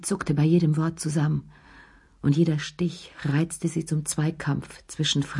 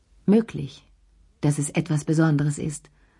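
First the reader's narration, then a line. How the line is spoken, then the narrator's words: Firm voice. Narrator (German): sagte sie mit fester Stimme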